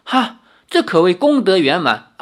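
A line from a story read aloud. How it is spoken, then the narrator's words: Laughing. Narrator (Chinese): 李逍遥笑道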